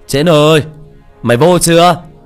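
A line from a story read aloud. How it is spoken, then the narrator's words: Loud shout. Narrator (Vietnamese): hắn hét lớn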